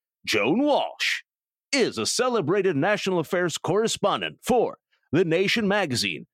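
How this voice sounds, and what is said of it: Dramatic movie-announcer style voice. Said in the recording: “my infamous nerdy movie phone voice”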